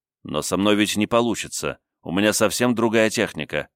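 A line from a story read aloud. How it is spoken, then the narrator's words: Plain. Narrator (Russian): ответил я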